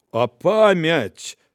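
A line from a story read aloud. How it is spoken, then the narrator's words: Grumbled. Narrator (Belarusian): буркнуў карніла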